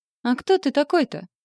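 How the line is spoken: Insolent smirk. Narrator (Russian): хмыкнула, нагло глядя

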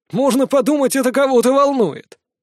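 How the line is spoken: Loud laughter. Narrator (Russian): Блас расхохотался

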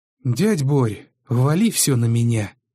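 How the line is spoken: Tired nephew. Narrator (Russian): устало сказал племянник

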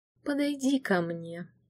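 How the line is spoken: Soft. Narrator (Russian): мягко произнес он

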